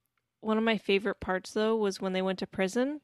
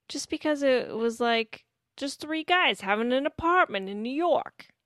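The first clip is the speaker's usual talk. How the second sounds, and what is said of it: Poor put-on New York accent. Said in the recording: “That's not a good accent ... what was that an attempt at? Italian? ... Yeah, New York. Like a New York accent.”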